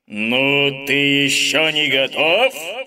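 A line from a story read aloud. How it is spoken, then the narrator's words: Giant's roar. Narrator (Russian): Снова взревел горный король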